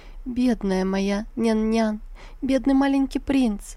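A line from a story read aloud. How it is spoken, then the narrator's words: Sobbing. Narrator (Russian): Рыдая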